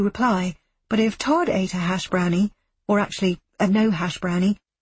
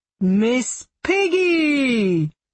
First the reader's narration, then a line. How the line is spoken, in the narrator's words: booms a man